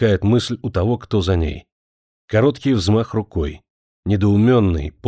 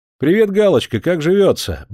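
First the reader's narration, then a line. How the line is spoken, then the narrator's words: Cheerful killer. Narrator (Russian): бодро говорит убийца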